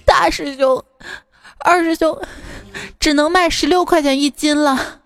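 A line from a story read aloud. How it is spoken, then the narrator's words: Crying. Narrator (Chinese): 沙僧哭着说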